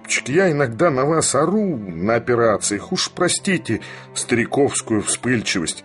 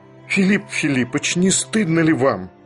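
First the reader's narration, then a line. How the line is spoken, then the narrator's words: Sincere fiery exclamation. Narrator (Russian): искренне воскликнул пламенный Барменталь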